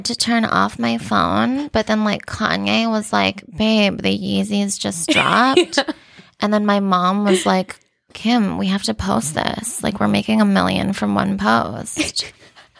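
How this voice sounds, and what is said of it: Kim Kardashian impression. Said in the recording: “I love Kim, by the way, but that's one of my first impressions that I did.”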